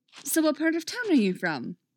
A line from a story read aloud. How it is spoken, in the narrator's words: Megan asks excitedly